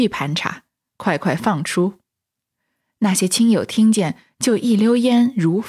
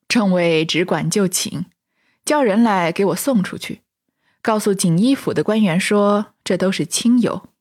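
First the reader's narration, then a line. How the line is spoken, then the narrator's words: Laughing. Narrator (Chinese): 王爷笑道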